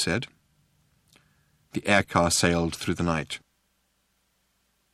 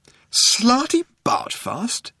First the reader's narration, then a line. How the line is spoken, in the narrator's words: exclaimed Arthur